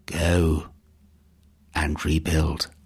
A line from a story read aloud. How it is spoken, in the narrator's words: a cool breeze seemed to whisper in his ears